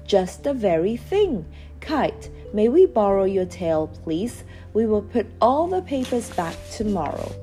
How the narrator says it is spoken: cried

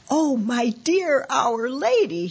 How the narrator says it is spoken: exclaimed

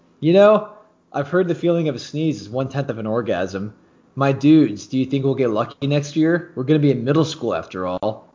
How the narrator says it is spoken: Justin laughed and said

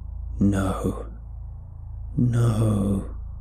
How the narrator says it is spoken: it hissed

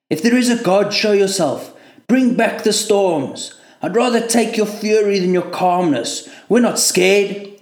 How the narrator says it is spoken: shouted at the sea

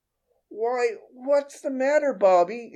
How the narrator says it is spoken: exclaimed his mother

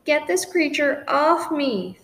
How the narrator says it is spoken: Scrounger howled

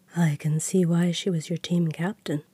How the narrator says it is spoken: Ash murmured

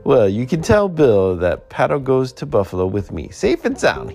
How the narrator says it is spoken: he laughed

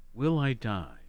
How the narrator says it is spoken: she asks

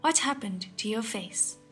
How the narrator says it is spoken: another replied

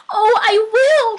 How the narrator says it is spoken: cried the little soul

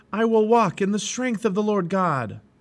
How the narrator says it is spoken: Now when he became afraid, he remembered to shout

